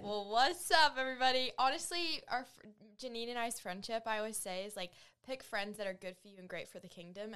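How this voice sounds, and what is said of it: New Zealand accent. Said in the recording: “you'll probably hear an accent because she's from New Zealand”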